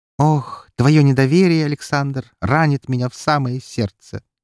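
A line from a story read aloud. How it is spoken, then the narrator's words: Laughing. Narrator (Russian): Рассмеялся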